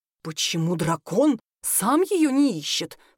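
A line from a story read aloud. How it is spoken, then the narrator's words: Sorcerer's hiss. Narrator (Russian): прошипел колдун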